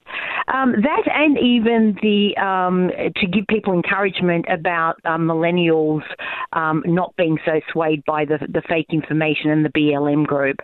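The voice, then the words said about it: Lovely accent. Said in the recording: “I would recognize that lovely accent.”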